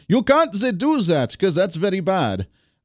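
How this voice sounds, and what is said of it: Poor put-on Swedish accent. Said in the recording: “that's a terrible Swedish accent”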